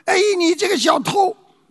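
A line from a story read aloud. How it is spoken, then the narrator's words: Shouting. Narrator (Chinese): 他大喊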